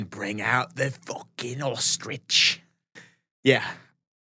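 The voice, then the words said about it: Put-on accent. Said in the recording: “I don't know if you should do the accent.”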